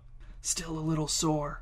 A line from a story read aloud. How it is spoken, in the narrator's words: whispered the angel